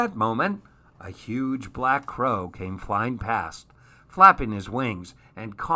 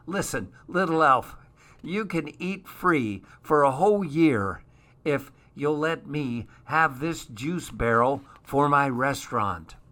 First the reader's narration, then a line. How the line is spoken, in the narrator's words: When she had finished choking, she said